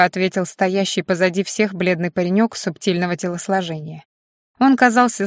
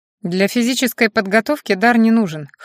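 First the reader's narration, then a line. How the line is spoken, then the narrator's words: Snorting hmph. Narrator (Russian): хмыкнул магистр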